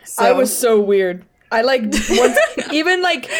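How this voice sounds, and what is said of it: Usual voice. Nothing is said of it.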